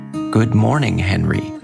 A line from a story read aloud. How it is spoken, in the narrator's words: Brian said cheerfully